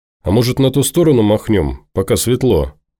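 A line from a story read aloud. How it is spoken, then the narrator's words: Cheerful suggestion. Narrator (Russian): бодро предложил Сергуня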